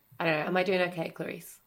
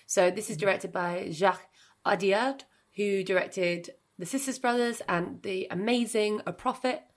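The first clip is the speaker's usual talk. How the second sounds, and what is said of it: Put-on French accent on names. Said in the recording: “I need to stop doing accents now. I always feel like when I do French, though, you should do it with an accent because it sounds better.”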